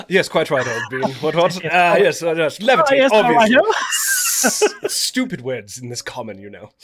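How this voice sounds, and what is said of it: Put-on posh giant character voice. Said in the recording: “That's his giant accent.”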